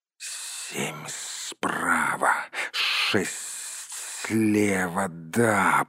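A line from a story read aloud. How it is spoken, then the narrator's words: Hissing. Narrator (Russian): прошипел он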